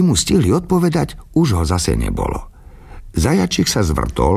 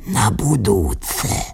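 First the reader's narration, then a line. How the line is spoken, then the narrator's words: Whispered. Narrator (Slovak): šepol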